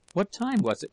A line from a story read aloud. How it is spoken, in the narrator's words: asked